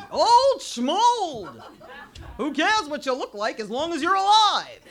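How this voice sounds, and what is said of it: Impression of an old Jewish man. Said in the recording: “my impression of this crazy Jewish man”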